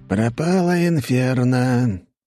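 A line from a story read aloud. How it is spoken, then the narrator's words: Sing-song mumble. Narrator (Russian): нараспев пробубнил Фирсов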